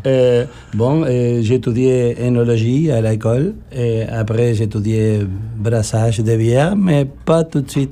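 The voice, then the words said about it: Argentine Spanish accent in French. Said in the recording (French): “accent bizarre, je suis originaire de l'Argentine ... Très bel accent”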